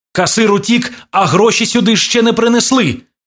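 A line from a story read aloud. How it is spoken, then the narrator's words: Shouting. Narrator (Ukrainian): крикнув Іван Кузьмі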